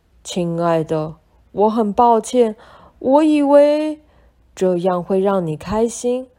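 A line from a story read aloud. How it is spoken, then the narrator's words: Crying. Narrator (Chinese): 奥利亚哭着说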